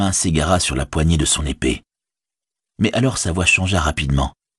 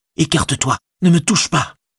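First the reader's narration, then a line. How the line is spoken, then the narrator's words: Exclaimed. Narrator (French): s'écria-t-il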